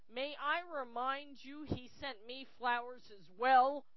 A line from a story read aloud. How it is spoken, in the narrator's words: Lucius roared